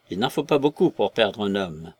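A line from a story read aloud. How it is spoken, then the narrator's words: Pensive tone. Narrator (French): me dit-il d'un ton pensif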